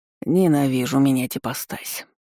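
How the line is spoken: Sighing. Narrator (Russian): вздохнул Энган

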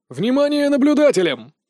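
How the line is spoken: Loud barking over cries. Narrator (Russian): Перекрывая крики раненых и голоса возмущенных моим побегом парней, рявкнул Дэм Хатха

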